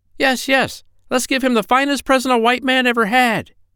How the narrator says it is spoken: they all cried out, making a great noise

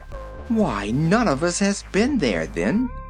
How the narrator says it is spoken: exclaimed the little girl

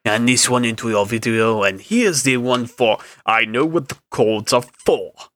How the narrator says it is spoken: Landlord snapped

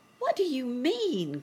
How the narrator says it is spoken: cried the children

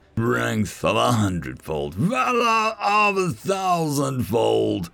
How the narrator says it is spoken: he roared out

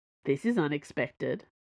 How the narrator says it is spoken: said

